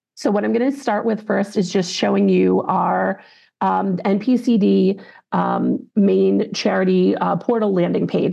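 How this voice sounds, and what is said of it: Scratchy voice. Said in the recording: “I am getting over a cold, so my voice is a little scratchy... not be too distracting that I sound like this”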